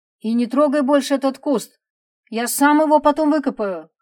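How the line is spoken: Shout after someone. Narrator (Russian): крикнул Игорь ей вслед

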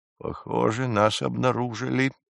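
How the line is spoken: Muttered. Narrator (Russian): пробормотал Маляриус Войнич

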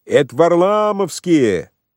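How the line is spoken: Shout from street. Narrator (Russian): крикнул кто-то на улице

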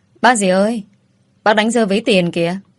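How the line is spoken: Loud call. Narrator (Vietnamese): tôi lớn tiếng nói

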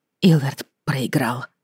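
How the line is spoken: Barely audible. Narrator (Russian): едва слышно ответила я

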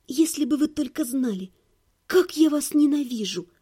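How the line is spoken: Whispered. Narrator (Russian): прошептала я

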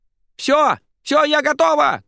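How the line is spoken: Shouting from inside house. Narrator (Russian): кричала подруга из дома

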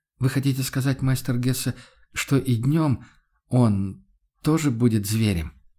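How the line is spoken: Dejected voice. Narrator (Russian): упавшим голосом вымолвил Макс Хагнер

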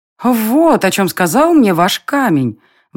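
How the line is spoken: Exclaiming. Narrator (Russian): воскликнула девушка

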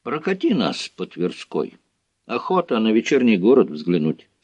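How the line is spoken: Plain. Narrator (Russian): сказал Юрий

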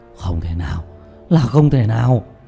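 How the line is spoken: Terrified, trembling cry. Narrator (Vietnamese): Diệp Bá đột nhiên lộ ra vẻ hoảng sợ cực độ, cả người run rẩy không ngừng kêu lên

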